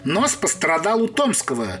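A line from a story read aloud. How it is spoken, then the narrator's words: Stern, old man. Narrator (Russian): строго указал старичок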